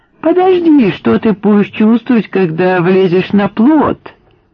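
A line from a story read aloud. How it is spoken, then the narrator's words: Joyful yelling. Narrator (Russian): радостно вопил Дик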